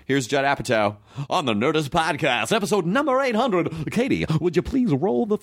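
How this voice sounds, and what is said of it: Announcer-style radio voice. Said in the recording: “I just did radio voice.”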